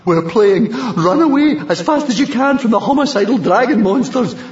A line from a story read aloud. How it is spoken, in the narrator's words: panted Fishlegs